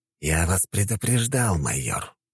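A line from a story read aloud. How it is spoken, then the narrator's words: Hissing. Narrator (Russian): прошипел Жемчужников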